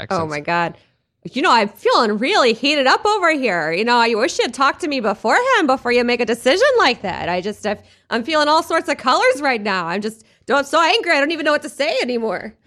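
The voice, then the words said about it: Angry Minnesota accent. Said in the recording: “an angry Minnesota accent.”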